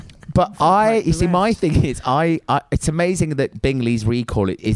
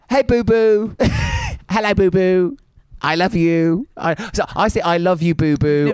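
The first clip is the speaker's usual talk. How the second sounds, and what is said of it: Doting pet voice resembling Alan Carr. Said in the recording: “do your voice ... you sound a bit like Alan Carr.”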